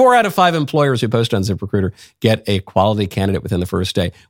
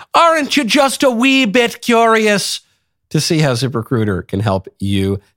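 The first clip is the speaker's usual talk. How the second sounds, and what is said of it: Put-on Irish accent. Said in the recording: “that was in the Irish accent”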